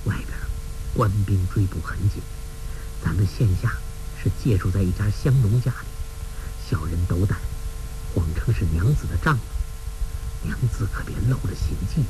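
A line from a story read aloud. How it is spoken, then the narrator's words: Low voice. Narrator (Chinese): 低声说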